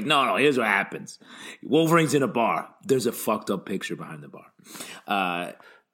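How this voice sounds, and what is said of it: Impression of Frank Thierry. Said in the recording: “my Frank Thierry impression”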